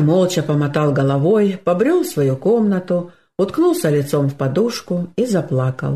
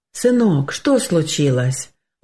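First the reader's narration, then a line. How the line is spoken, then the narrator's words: Father's gentle question. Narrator (Russian): ласково спросил отец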